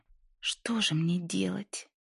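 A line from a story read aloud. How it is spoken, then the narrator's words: Moaning. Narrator (Russian): простонала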